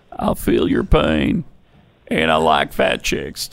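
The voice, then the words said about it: Imitates another person's voice. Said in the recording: “this former president of the United States ... that impersonated president”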